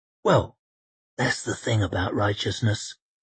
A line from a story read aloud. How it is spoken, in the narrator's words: murmured Koska